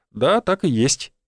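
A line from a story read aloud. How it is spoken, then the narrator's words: Calm confirmation. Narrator (Russian): спокойно подтвердил я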